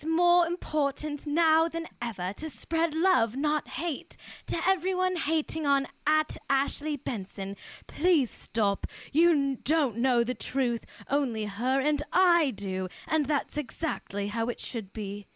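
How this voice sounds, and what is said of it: Dramatic posh accent imitating Cara. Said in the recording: “That was a beautiful dramatic. ... I feel like I channeled Cara. ... You had her posh accent too. ... She's posh.”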